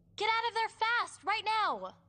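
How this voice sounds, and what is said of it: Shouting. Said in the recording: “stop shouting.”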